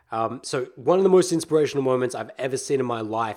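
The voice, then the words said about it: Raspy, strained voice. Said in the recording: “reset my voice, getting raspy ... It's getting super raspy.”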